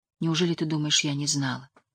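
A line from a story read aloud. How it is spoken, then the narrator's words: Quiet question. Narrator (Russian): тихо спросила Шарлин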